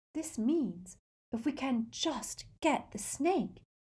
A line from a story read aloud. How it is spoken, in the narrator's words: whispered Hermione